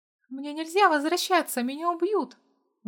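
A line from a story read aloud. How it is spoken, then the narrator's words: Pleading. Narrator (Russian): взмолилась Женя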